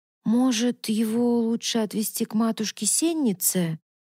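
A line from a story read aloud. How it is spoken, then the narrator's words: Hesitant drawl. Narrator (Russian): неуверенно протянула Мавна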